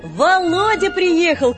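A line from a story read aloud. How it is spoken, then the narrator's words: Shout from the yard. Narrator (Russian): крикнул кто-то на дворе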